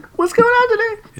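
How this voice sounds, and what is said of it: High-pitched, rising voice. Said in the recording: “I'm going up again. My voice is going up... It's all about helium.”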